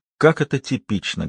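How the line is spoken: Plain. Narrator (Russian): говорит она

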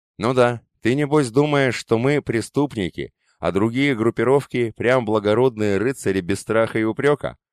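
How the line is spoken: Plain. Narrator (Russian): сказал он

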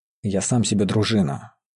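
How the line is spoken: Through gritted teeth. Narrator (Russian): сквозь зубы проговорил Мечислав

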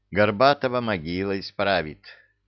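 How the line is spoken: Young man's snort. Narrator (Russian): хмыкнул юноша

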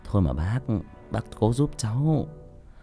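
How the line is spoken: Pleading. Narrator (Vietnamese): Tôi nài nỉ

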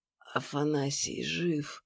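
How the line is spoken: Strained whisper. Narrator (Russian): с большим трудом прошептала Настя

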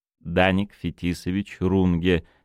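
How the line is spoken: Plain. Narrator (Russian): сказал Фемистокл

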